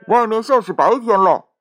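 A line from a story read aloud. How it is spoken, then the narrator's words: Calling from inside oven. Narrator (Chinese): 炉子里面叫道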